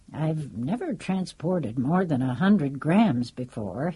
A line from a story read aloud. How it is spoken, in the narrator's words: he said calmly, thoughtful